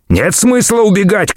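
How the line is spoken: Shouting. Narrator (Russian): крикнул Джим

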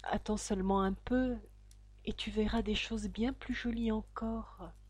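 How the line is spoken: Man's murmur. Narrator (French): murmura l'homme

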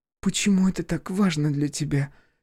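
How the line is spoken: Quiet question. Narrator (Russian): тихо спросила Полина

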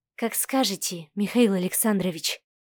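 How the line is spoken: Young woman's whisper. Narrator (Russian): прошептала девушка в ответ

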